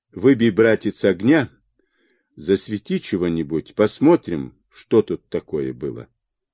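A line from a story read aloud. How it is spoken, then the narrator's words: Calm. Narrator (Russian): Цесаревна спокойно сказала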